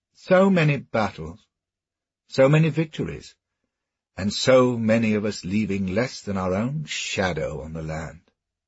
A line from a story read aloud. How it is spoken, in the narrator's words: he said